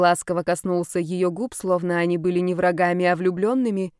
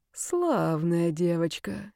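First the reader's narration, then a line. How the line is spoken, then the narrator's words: Quiet. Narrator (Russian): тихо сказал Карл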